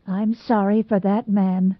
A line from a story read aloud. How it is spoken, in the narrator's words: said Mrs